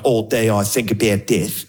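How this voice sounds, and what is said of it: Mock Australian accent. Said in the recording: “Australian accent's one of those accents that's funny every single time ... You sound funny”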